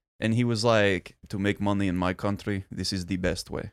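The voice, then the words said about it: Good imitated Russian accent. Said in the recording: “you have a good Russian accent”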